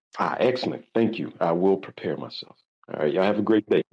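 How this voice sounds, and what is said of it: Southern American drawl. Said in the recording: “your accent is absolutely incredible ... Is it Southern American? ... it is Southern. ... I guess Southern drawl is what we call it around here. I'm from the Carolinas originally.”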